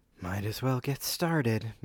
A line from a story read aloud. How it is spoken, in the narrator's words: Muriel sighed to herself